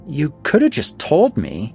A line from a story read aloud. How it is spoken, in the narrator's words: whined, trying to regain some composure